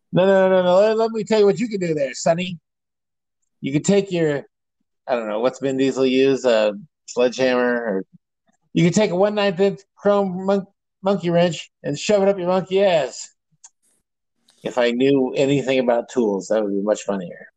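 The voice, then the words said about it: The Rock impersonation. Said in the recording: “your Rock impersonation was as good as your Michael Caine”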